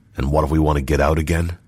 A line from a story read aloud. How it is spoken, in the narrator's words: asked Roshar curtly